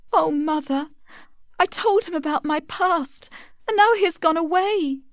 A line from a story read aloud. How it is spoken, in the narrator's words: sobbed Tess